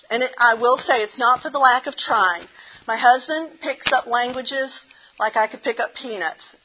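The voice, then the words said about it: Southern American accent. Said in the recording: “my southern accent comes out”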